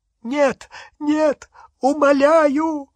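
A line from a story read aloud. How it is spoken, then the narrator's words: Choking sobs. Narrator (Russian): захлебал с рыданиями Ксенофилиус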